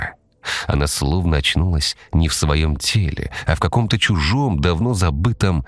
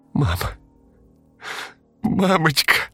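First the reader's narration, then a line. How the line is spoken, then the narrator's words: Strained cry. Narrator (Russian): только и выдавила Яна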